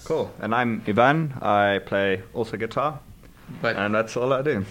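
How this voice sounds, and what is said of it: South African accent. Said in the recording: “if you couldn't tell from his accent, he's from South Africa ... since you have an accent”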